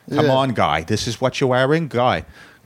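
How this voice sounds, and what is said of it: Heavy Dorchester Boston accent. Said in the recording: “Danny and Mark have suppressed the accent, but the others, hardcore ... Dorchester”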